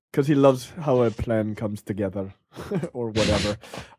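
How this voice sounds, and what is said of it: Put-on Welsh accent. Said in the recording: “my Welsh accent.”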